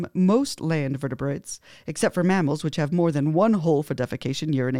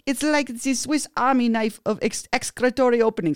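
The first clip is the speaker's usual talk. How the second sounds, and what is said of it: Put-on German accent. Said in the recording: “I was going to do the exact same accent ... imagine a paleontologist that would talk about a dinosaur butthole to be like German”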